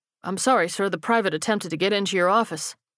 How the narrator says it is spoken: the other guard said quickly

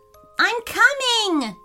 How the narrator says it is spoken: yelled Dean, his brother

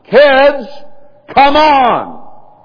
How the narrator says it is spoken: you holler

